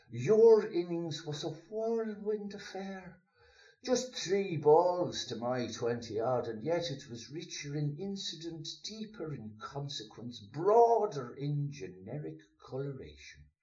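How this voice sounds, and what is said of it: Put-on Dublin Irish accent. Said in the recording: “hopefully with the most authentic Dublin accent I can get”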